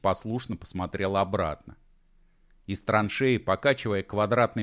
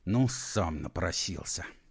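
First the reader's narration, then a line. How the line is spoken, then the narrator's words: Through gritted teeth. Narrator (Russian): сквозь зубы процедил он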